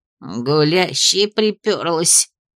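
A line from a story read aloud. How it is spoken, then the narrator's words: Exasperated grumble. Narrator (Russian): Не выдержала и пробурчала Кая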